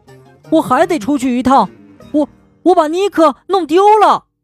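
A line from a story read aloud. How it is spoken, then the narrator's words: Shout. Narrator (Chinese): 他喊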